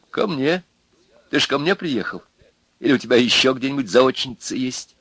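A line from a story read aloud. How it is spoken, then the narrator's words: Laughing. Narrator (Russian): Люба засмеялась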